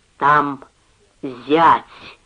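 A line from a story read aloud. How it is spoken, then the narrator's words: Slow careful speech. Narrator (Russian): сказал он, медленно и старательно выговаривая слова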